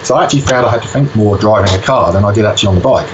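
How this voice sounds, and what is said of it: Slight British accent. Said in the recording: “I detect a bit of an accent. I'm picking you're a British lad”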